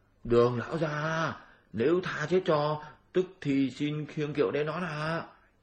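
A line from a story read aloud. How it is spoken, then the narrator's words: Hurried soft reply. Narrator (Vietnamese): vội khẽ trả lời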